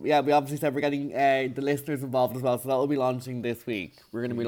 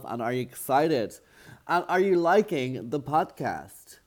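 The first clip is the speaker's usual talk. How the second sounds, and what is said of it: Slight put-on American accent. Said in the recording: “a bit of an American accent”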